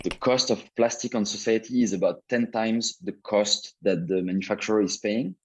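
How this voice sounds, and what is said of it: French accent. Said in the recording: “you want to hear a French accent?”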